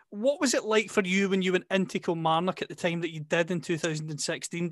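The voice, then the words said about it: Scottish accent. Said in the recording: “you can tell from the accent. I'm based in Scotland.”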